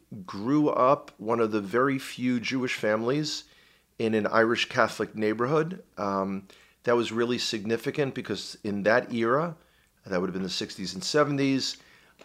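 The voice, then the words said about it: New York Bronx accent. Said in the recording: “as you can probably hear in my accent, this is not an Israeli accent. This accent was born and raised in the Bronx in New York City.”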